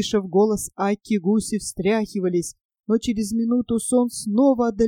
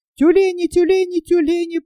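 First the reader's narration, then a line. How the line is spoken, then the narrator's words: Piercing shout. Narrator (Russian): пронзительно закричала Акка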